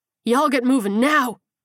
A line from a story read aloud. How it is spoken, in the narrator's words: screamed